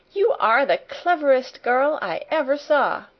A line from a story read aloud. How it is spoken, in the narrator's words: she cried out